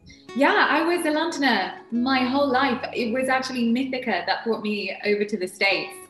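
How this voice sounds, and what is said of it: London accent. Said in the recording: “Obviously, from the accent, you were born in London.”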